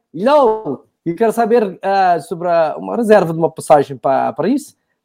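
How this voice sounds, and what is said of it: Mixed Portuguese-French put-on accent. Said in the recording (Portuguese): “que sotaque é esse que saiu, que não tenho a menor ideia... não saiu português, não saiu... falei um Paris, saiu um francês no meio... ele mistura o sotaque”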